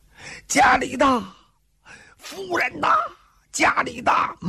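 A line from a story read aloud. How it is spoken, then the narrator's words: Frantic shouting while running. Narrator (Chinese): 一疯，撒腿就跑，边跑边喊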